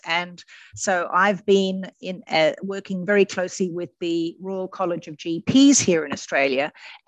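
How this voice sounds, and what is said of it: Australian accent. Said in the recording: “obviously Australian. I'm sure everybody can detect that from the accent.”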